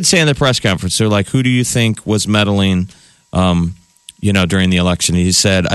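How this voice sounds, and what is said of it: Usual voice. Nothing is said of it.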